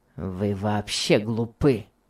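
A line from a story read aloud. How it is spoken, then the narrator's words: Rude. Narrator (Russian): сказал Том грубо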